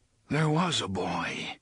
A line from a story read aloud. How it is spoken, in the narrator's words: the gunslinger said in a distant, muttering voice